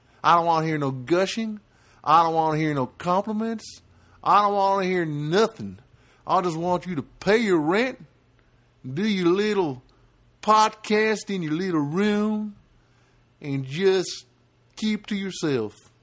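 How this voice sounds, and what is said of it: Southern redneck character voice. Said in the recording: “Why am I talking in a southern accent? ... It's just a kind of a redneck character that I did”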